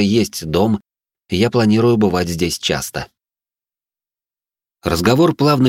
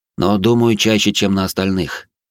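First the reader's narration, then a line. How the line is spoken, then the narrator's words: Added with heavy sigh. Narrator (Russian): добавил я и тяжело вздохнул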